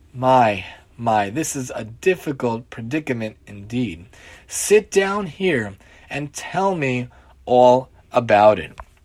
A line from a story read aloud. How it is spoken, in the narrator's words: the old man sighing sympathetically